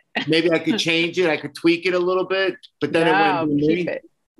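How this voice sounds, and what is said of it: Brooklyn accent. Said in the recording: “the Brooklyn accent”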